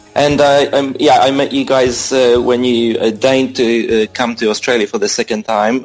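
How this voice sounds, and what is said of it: Polish-Australian accent. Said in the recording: “from Australia, but I'm Polish-Australian, I guess, just to explain my strange accent”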